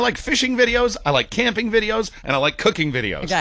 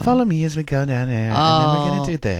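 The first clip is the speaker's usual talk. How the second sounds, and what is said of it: Soft fragmented TikTok voiceover delivery. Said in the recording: “Speaking in that fragmented algorithmic accent... it's in that soft sort of”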